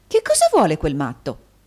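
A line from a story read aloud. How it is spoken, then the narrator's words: Nurse's angry exclamation. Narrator (Italian): esclamò l'infermiera guardando irata in giro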